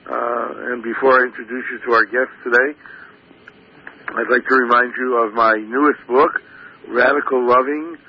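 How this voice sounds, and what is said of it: Slightly raspy voice. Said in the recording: “My voice is still a little raspy from conducting high holiday services ... forgive me the rasp”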